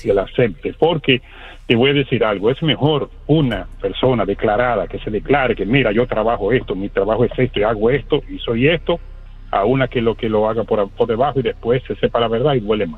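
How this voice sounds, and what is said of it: Radio announcer-like voice. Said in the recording (Spanish): “con esa voz de locutor”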